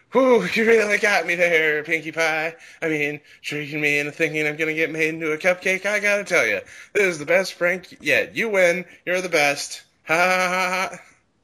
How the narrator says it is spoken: started to laugh and said in a voice bordering on hysteria

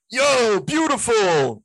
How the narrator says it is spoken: yelled

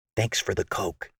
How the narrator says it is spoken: Megan said quietly

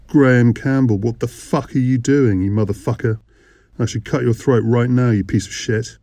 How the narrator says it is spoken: her voice quivering with anger, fear and adrenaline

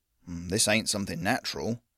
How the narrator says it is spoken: muttered

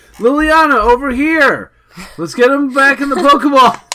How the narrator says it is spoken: he'd yell

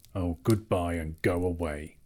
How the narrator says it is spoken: grunted the dwarves, all the more angry because they were really filled with dismay at losing him

